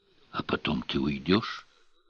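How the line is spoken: Whispering. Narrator (Russian): прошептала Кладь

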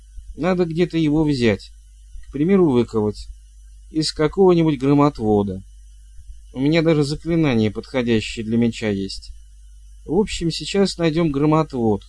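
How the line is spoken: Uncertain suggestion. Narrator (Russian): неуверенно предложила

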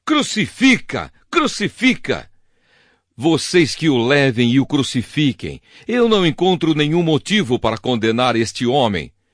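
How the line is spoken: Shouting. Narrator (Portuguese): os chefes dos sacerdotes e os guardas do templo começaram a gritar

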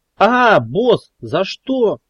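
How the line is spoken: Startled yelp. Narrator (Russian): вскрикнул Кеша, получив подзатыльник и от неожиданности

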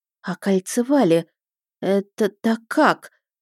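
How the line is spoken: Mumbled in astonishment. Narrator (Russian): промямлила я, изумленно

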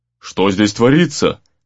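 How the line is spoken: Menacing question. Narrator (Russian): грозно осведомился

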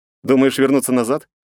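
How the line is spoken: Snorting. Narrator (Russian): хмыкнул я

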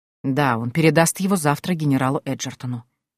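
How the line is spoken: Quiet. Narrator (Russian): тихо ответил он

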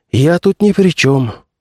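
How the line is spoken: Sighing. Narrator (Russian): вздохнул комиссар

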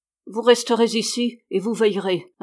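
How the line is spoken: Gruff interruption. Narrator (French): interrompit le meunier d'un ton bourru

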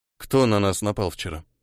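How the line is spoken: Calm question. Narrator (Russian): спокойно спросил Ниэль

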